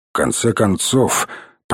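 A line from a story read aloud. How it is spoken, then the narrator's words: Muttering to no one. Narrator (Russian): пробормотал он, никому конкретно не обращаясь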